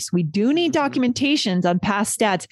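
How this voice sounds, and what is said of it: Slightly louder, emphatic speech. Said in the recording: “I'm speaking a little louder, right? I'm showing certain things, certain changes in my voice”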